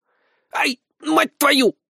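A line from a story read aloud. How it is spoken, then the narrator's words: Squeaking from below. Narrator (Russian): пропищали снизу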